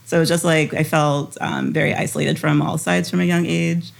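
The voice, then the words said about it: American stateside-sounding accent. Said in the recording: “if you can listen to my accent ... why do you talk like a white stateside person? They would say like a Yankee.”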